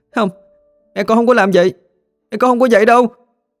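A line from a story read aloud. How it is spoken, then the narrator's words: Crying shout. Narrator (Vietnamese): Trà đang khóc, nó la lên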